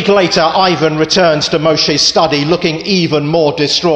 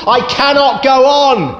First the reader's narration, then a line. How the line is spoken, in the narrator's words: he shouts